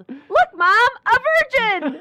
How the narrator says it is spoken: that child saw, a heavily pregnant woman and yelled

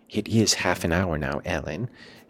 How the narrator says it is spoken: she whispered in my ear at last

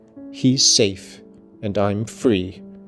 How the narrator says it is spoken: she answered

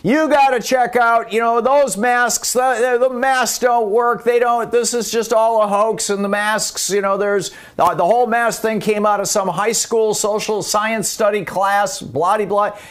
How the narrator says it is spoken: he starts yelling

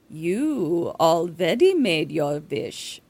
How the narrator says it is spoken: she purrs

